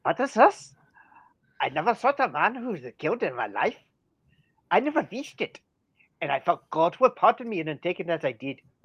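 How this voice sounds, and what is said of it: Poor put-on German accent, sounds Irish. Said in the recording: “you're Irish. ... you need to work on that German accent”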